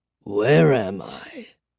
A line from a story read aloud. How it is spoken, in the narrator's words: the old man croaked